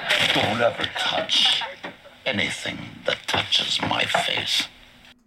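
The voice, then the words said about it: Funny voice with a crack. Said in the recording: “Love his funny voice. That crack, I'll tell you. Perfect voice.”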